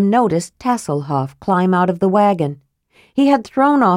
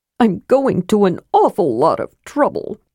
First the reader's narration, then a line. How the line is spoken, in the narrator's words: Tass grumbled